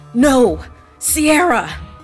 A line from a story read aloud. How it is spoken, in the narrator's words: he screamed